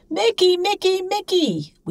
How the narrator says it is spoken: we once screamed, as though he were 20 miles away instead of right in front of us

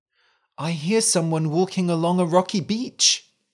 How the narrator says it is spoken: he cried

